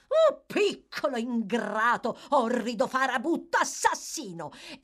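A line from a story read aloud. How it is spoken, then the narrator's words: Shrieking for show. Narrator (Italian): Charlotte … accompagnandoli a un urlo a beneficio del pubblico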